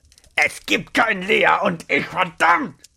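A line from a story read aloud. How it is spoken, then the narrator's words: Thundering voice. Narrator (German): Rainers Stimme donnerte erneut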